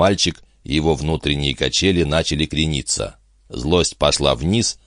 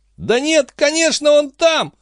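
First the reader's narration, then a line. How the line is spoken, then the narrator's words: Loud sobbing. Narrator (Russian): Хилли принялся громко всхлипывать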